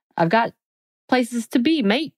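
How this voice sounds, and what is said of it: Put-on accent. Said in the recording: “that was my accent.”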